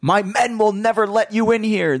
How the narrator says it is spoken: the victim screamed

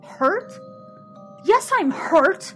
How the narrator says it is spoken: exclaimed

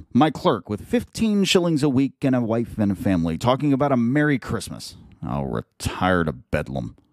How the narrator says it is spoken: muttered Scrooge

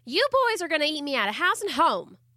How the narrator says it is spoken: Amber Lee cried out

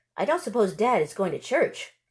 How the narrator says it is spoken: Lena said loudly

